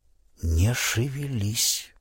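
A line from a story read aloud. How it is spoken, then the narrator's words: Barely audible whisper. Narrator (Russian): прошептал он едва слышно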